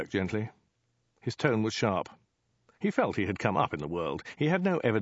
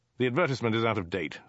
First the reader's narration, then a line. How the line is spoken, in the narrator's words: snapped Dirk